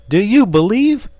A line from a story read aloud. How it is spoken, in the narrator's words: he cried